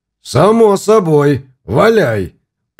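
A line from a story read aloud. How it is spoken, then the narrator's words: Growl. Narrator (Russian): прорычал краснолицый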